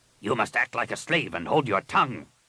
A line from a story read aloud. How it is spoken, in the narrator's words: Rapung snapped